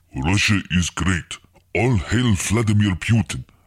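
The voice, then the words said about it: Silly put-on Russian accent. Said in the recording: “very silly man with very silly accent.”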